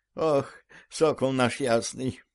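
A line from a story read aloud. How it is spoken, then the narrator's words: Sighing old woman. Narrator (Russian): Вздохнув, старуха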